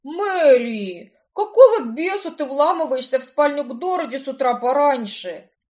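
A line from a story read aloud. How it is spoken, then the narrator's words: Frantic yelling. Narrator (Russian): орал, как укушенный Картер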